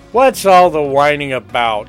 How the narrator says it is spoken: a male voice boomed at the door of the kitchen

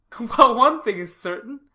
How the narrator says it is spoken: said Gilbert, laughing

